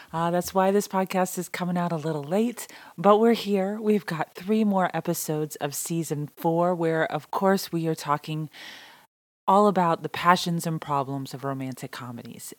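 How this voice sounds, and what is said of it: Hoarse, strained voice. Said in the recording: “I lost my voice again.”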